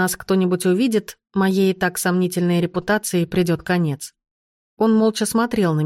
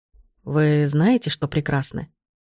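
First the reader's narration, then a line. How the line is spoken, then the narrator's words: Sudden quiet words. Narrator (Russian): Вдруг тихо произнес он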